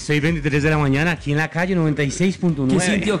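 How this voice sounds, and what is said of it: Radio announcer voice. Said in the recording (Spanish): “voz de locutor”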